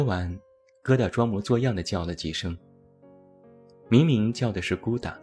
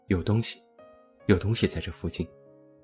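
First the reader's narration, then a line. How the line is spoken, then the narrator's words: Low voice. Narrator (Chinese): 熊妹低声说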